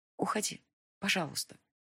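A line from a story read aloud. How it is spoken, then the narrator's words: Quiet addition. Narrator (Russian): добавила тихо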